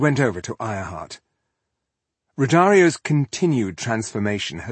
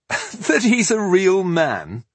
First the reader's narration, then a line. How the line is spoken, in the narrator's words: Millennia gave a bitter laugh